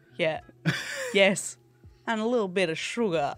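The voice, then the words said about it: Half-hearted put-on accent. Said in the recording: “Thank you for 23% committing to an accent there.”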